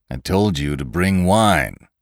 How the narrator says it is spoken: cried the girl

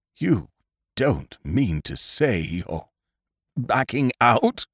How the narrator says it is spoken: He said, in a low, quivering voice

